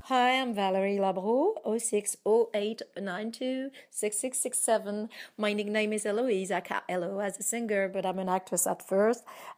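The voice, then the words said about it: Non-native English, American-leaning accent. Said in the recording (French): “my accent is more American, but I can still improve myself in English”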